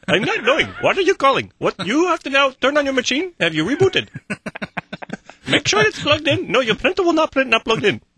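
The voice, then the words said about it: Put-on customer support accent. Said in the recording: “We don't have the right accent.”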